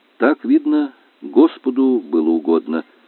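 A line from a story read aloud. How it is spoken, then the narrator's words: Said gloomily. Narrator (Russian): сказал он уныло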